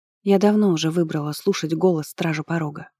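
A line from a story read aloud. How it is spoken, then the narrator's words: Gentle objection. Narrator (Russian): мягко возразила Тера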